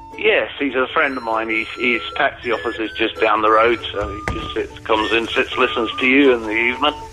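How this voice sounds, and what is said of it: Mixed Irish-tinged English accent. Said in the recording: “It sounds like sort of Irish-American Cockney ... there's a hint of Irish in there, but not enough for it to be full-on proper Irish”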